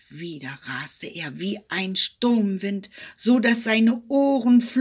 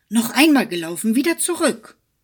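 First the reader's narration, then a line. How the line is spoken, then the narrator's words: Man calling out. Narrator (German): rief er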